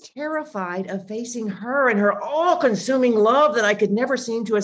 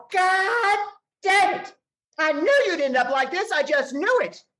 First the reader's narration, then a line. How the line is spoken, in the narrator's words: yell